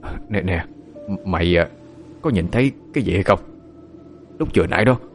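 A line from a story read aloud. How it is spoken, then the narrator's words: Old man's trembling voice. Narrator (Vietnamese): Ông run run giọng nói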